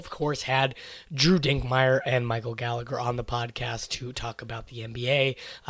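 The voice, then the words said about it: Hoarse, worn-out voice. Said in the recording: “my voice is ruined from watching the Kansas City Chiefs win the Super Bowl”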